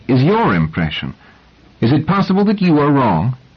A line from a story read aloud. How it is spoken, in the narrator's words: said Selden angrily